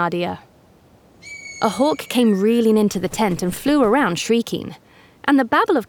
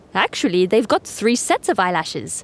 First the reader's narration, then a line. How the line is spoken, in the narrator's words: said Ibrahim